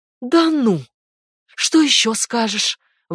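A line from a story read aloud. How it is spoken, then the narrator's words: Flushed mother spitting out words. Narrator (Russian): воскликнула раскрасневшаяся мать, выплевывая слова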